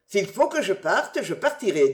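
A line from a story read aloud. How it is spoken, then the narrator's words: Plain. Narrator (French): dit-il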